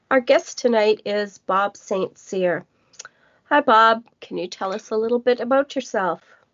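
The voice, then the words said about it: Voice affected by a cold. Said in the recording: “I have a cold.”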